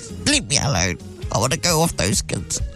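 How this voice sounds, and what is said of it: Old lady voice. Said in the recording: “old lady voice”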